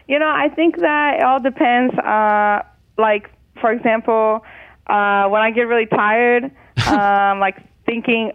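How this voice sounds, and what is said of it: Brazilian-American accent. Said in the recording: “your accent, that it's changed ... Now it kind of sounds pretty standard to me, but it gets a little more Brazilian, I would say, then a little more American”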